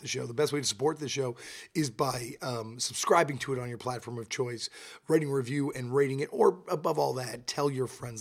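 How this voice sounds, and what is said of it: Hoarse, blown-out voice. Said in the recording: “You can hear from my voice. It's all blown out. It's because I'm on tour right now with my band”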